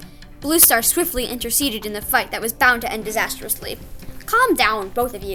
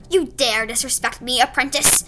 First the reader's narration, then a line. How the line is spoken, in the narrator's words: he snarled